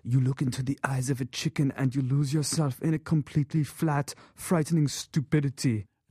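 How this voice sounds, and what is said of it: Werner Herzog impression, Schwarzenegger-like. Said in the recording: “my not incredible Herzog impression ... It's a little Terminator 2 ... it's more Schwarzeneggerian.”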